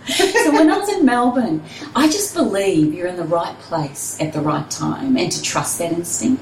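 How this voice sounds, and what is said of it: New Zealand accent. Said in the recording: “For those that can hear my accent, yes, there is a Kiwi lingering inside.”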